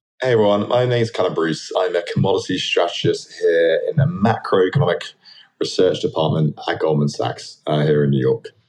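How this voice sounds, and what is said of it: Slight British London accent. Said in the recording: “You don't sound like most of the New Yorkers I know, since a little bit of an accent there ... I grew up in London, in Southwest London.”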